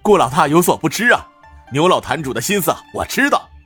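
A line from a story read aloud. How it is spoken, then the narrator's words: Laughing. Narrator (Chinese): 赵健笑道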